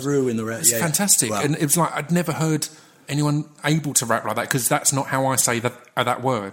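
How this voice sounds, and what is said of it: Essex and London English accent. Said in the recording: “I'm from Essex... So I've got a mixture of South London, East London kind of. And Essex is generally a bit East London... accent-wise... your dialect is sharp... It's distinguishable”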